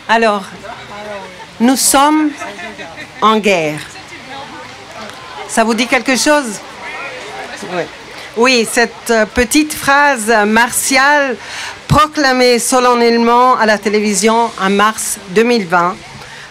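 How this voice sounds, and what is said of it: Ticino Swiss-Italian accent in French. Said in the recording (French): “mon petit accent tessinois”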